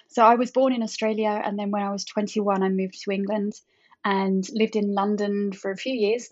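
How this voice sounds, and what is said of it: Australian accent twang. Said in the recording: “I'm Australian, actually. So you'll hear the twang”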